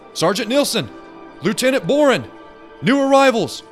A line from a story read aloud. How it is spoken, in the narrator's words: the young man called out